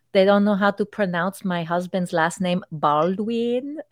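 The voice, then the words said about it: Put-on fake Spanish accent. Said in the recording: “oh, I'm Spanish ... sorry, I'm doing the accent, but that's how she would did it”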